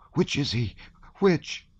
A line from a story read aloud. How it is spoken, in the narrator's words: asked Pecha in a tearful voice